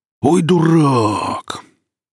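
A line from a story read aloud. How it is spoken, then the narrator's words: Exclamation. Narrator (Russian): Велес воскликнул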